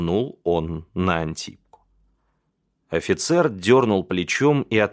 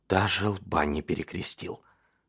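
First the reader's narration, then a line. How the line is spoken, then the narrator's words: Whisper. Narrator (Russian): прошептал инвалид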